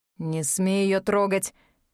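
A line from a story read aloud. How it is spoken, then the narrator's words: Through clenched teeth. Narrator (Russian): процедил Аид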